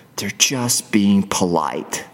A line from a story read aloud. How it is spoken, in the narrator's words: my inner critic may still whisper